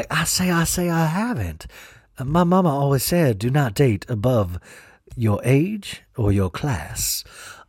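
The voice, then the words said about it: Imitates another person's accent. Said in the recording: “I've just given Porter Sutton's accent.”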